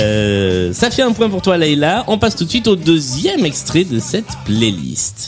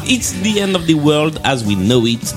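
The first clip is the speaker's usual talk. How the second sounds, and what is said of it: Carefully attempted English accent. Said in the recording (French): “J'essaie de soigner mon accent anglais pour une fois.”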